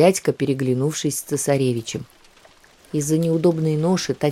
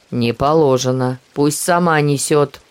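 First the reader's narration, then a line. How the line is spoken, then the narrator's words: Angry soldier. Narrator (Russian): зло солдат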